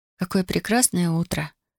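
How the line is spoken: Quiet. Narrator (Russian): тихо сказала она

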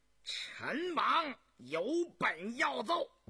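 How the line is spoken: Eager loud speech. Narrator (Chinese): 早已等得心痒难耐的东亲王永信……大声说道

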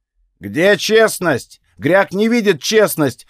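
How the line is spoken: Yelled. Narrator (Russian): орал он в тот раз

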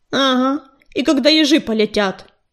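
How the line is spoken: Grumbling mutter. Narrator (Russian): пробурчал Белохвост

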